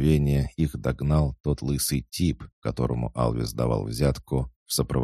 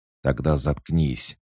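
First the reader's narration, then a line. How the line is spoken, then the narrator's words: Angry. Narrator (Russian): зло ответил ей голос Алана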